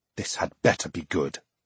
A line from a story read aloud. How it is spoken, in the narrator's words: he whispered under his breath